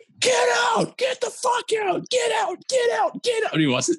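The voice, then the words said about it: Screaming, shouted angrily. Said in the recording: “I'm yelling. ... screaming. Screaming. ... I'm like, screaming.”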